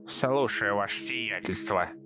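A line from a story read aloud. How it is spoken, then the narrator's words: Said through gritted teeth. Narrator (Russian): процедила Капуждия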